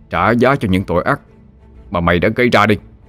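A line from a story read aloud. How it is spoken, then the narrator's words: Menacing, gritted voice. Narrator (Vietnamese): Hy gằn giọng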